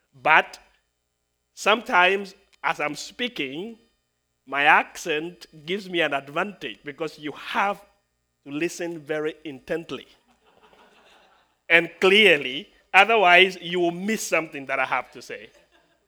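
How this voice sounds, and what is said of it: Speaks with a noticeable accent. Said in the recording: “people tell me that I have an accent”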